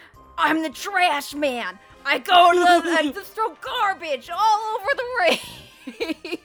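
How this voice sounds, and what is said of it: Danny DeVito impression. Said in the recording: “That's my Danny DeVito voice”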